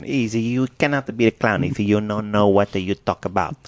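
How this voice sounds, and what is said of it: Thick put-on Italian accent. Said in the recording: “It was a thick Italian accent.”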